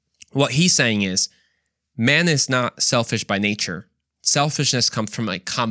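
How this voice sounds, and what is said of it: Usual voice. Nothing is said of it.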